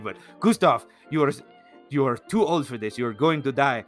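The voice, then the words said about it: Wobbly attempted Swedish accent. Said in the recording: “I don't know what a good Swedish accent would be ... I think I just did like 3 different accents.”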